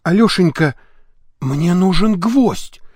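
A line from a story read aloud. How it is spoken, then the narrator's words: Whisper. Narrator (Russian): прошептала супруга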